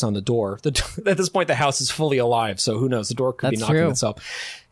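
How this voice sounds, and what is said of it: Usual voice. Nothing is said of it.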